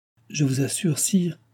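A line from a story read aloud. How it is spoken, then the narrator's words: Stammer. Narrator (French): balbutia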